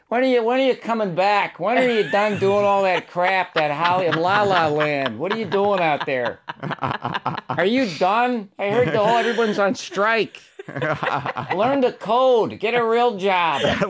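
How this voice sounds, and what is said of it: Flat Chicago-Cleveland accent. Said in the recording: “So the Chicago accent creeps down into Cleveland, huh? ... You hear that flatness of it. That flat.”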